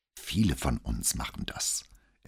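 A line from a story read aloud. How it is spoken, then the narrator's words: Boy explaining very quietly. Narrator (German): erklärte der Junge so leise, dass Brunetti Sorge hatte, ob es für das Mikrofon ausreichen würde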